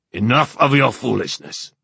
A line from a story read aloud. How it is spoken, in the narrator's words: the king snapped